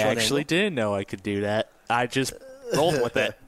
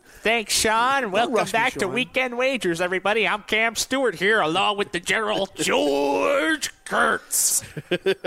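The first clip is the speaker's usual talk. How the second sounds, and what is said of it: Imitates another person's voice. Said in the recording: “that is a great impression... that's a great impersonation of Cam Stewart there”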